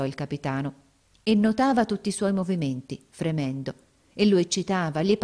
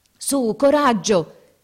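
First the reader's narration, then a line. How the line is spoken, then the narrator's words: Shouting. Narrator (Italian): gridava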